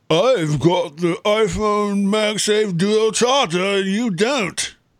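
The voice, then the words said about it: Put-on Swiss accent. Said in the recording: “Swiss that's accent? exactly how they would say it, just like that ... That's definitely a Swiss accent there ... certainly better than other accents that I do”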